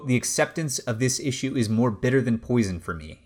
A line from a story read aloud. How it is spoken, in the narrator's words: said